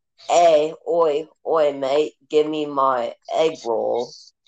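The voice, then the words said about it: Put-on British-sounding accent. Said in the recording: “he's Aussie. I don't know why I'm doing it like a British accent.”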